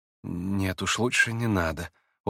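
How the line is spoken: Quiet, smiling. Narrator (Russian): улыбнулся он тихо

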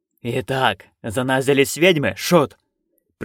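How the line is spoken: Growled. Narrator (Russian): прорычал он

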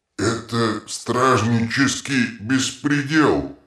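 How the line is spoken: Volcano muttering. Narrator (Russian): пробурчал вулкан

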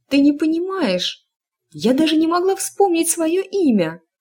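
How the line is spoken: Crying out. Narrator (Russian): вскрикнула Эск

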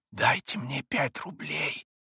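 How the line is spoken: Whisper. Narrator (Russian): прошептал он

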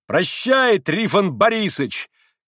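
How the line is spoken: Angry involuntary shout. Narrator (Russian): крикнул опять Митя, не от добродушия теперь закричал, а со злости, против воли крикнул

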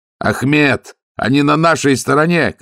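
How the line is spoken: Shouting. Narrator (Russian): крикнул Ваймс

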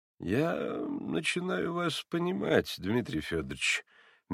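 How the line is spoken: Soft sympathetic drawl. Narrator (Russian): мягко и даже как бы сострадательно протянул прокурор

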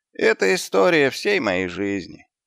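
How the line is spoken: Sighing. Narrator (Russian): вздохнул Господь

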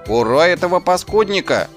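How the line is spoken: Enthusiastic shout. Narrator (Russian): С энтузиазмом прокричал Шнопс

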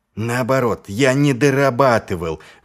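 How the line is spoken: Exclamation. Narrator (Russian): воскликнул Ваймс

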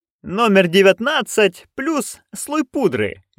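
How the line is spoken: Cheerful. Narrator (Russian): весело пояснил там Джон

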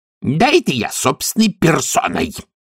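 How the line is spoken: Female barking. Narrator (Russian): рявкнула она

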